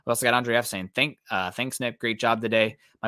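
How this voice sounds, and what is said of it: Tired, strained voice giving out. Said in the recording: “My voice is starting to give out”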